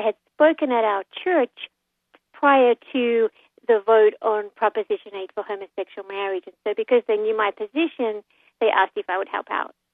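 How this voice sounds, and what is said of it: Australian accent. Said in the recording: “You don't sound like you have a California accent ... I come from Australia ... I wasn't sure if it was Australia or South Africa”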